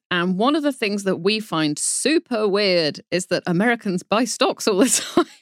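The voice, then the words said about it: British accent. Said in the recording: “you can probably tell from my accent that I am a Brit”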